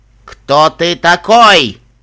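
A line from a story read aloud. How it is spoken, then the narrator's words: Growled. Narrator (Russian): прорычал Каракакон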